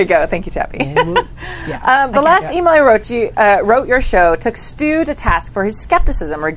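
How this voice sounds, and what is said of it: Usual voice. Nothing is said of it.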